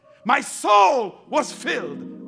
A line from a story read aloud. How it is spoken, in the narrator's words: I cried